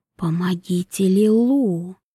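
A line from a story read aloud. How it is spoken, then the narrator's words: Whisper. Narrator (Russian): прошептал голос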